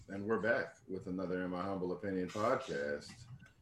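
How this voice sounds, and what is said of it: Quiet daytime radio host voice. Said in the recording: “I sound like a daytime radio host ... You sound quiet.”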